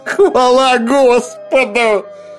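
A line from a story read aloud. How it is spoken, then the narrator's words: Tearful strained words. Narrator (Russian): выдавил Джонсон сквозь слезы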